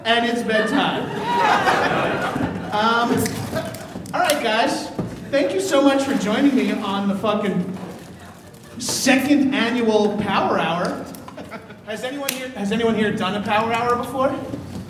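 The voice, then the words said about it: Out of breath, breathless speech. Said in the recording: “out of breath,”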